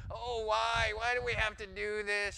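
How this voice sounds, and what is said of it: Whiny, screechy voice. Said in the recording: “in a really whiny voice ... that really screechy, irritating”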